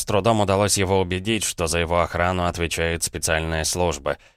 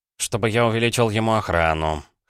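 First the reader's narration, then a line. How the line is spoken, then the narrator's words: Snort. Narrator (Russian): хмыкнул Громов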